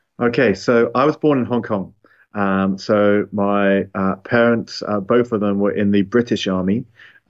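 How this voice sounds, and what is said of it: Non-local accent. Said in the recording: “you could probably tell by my accent that I'm not originally from here”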